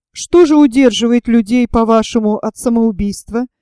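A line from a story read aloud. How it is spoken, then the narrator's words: Plain question. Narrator (Russian): спросил я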